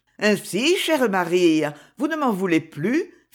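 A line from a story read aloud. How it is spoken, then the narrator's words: Caressing male voice. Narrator (French): fit-il d'une voix caressante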